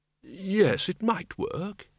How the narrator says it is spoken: he said quietly

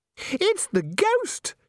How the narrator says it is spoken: shrieked Christine automatically

